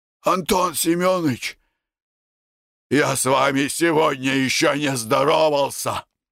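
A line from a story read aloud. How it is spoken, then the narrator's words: Hoarse. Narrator (Russian): сказал хрипло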